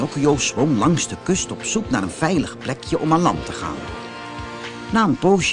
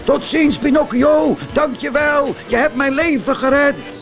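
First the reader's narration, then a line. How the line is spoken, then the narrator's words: Calling out. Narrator (Dutch): Brutus riep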